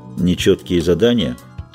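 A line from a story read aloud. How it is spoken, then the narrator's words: Dry, curt. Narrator (Russian): сухо бросил ведьмак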